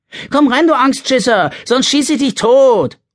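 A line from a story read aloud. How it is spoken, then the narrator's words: Calling out. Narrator (German): ruft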